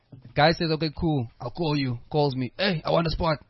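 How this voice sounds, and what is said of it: Obnoxious generic imitated voice. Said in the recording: “Now I'm just doing this voice to make him sound like an asshole. ... Generic voice.”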